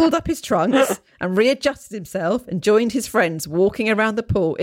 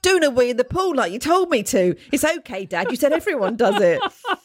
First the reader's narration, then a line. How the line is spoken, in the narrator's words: My Australia-born son shouted back gleefully